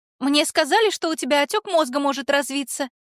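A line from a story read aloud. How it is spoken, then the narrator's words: Frightened yelling. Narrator (Russian): Тут же заорала испуганная подруга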